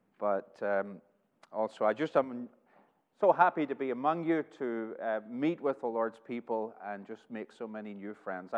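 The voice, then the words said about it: Northern Irish accent, somewhat shifted. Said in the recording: “he certainly does not have the same accent as someone that comes from these parts... my homeland is Northern Ireland. And the accent is changing, and it changes pretty much wherever I go”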